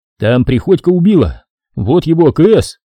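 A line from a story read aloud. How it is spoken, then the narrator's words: Shouted. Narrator (Russian): крикнул я ротному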